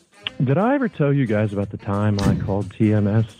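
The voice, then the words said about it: Impression of Randy Deluxe. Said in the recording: “it almost sounds like Randy ... that was a pretty good Randy Deluxe impression ... That was really good.”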